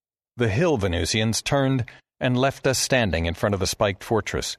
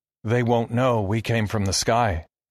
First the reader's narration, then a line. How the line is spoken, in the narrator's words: Eric said, his voice quavering slightly